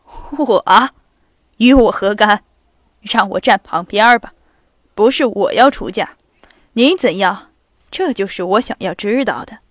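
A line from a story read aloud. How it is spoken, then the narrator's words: Low voice. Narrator (Chinese): 公爵小姐低声地说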